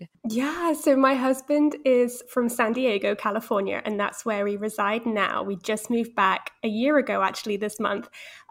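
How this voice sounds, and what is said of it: British accent. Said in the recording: “Obviously you are British, by your beautiful accent”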